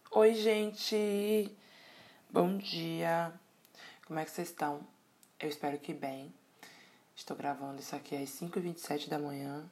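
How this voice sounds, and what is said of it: Sleepy, somewhat distant-sounding voice. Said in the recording (Portuguese): “minha voz está um pouco distante. Um pouco de sono”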